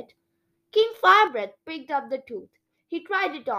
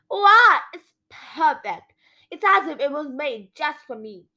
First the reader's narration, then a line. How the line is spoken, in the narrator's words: exclaimed